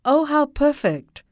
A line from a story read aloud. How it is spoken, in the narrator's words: she called out